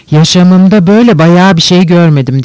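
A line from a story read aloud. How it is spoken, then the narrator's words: Loud sarcastic woman. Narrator (Turkish): Tam Yulia Mihailovna'nın yanında duran bir bayan, sesini duyurma isteğiyle ve iğneleyici bir sesle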